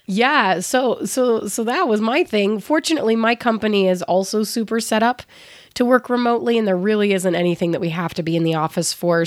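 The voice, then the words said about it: Hoarse, worn-out voice. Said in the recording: “my voice is kind of shot ... when I start losing my voice”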